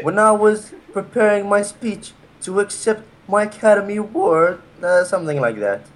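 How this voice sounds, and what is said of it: Put-on British English accent. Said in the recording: “How do you do a British accent? ... He can do English accents.”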